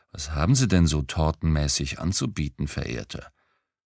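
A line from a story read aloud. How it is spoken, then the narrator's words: Sweet purring voice. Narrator (German): säuselte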